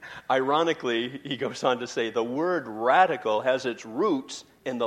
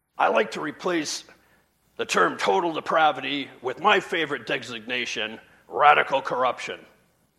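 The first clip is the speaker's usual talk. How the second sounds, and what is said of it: Bad R.C. Sproul impression. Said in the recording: “That's the worst impression of R.C. Sproul ever.”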